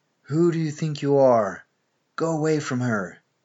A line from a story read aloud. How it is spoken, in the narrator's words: I was roaring and roaring over and over again